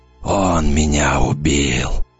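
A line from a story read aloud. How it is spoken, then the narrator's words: Dead man's whisper. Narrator (Russian): прошептал мертвец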